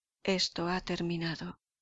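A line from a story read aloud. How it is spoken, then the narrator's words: Low voice. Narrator (Spanish): dijo el capitán Harry en voz baja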